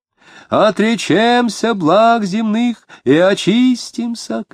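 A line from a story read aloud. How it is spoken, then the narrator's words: Shouting. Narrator (Russian): кричал он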